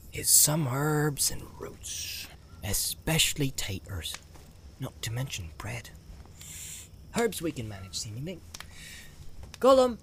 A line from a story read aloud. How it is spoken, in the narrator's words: called softly